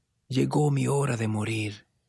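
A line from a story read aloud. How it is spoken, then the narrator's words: Weakly spoken. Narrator (Spanish): dijo débilmente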